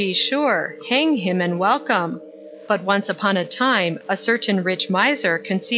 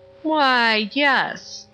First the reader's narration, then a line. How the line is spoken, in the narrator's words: said Dupin, drawlingly, between the whiffs of his meerschaum